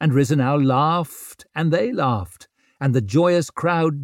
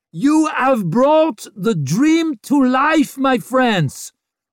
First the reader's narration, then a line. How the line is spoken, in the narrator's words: roared Rizenau